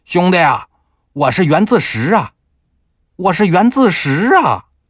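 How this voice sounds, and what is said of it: Shouting in Shandong dialect. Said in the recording (Chinese): “用山东话喊了一声”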